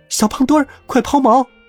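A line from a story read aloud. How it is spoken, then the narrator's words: Sudden terrified shout. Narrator (Chinese): 贝里奥突然惊恐的大叫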